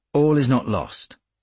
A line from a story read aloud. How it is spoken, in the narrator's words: I said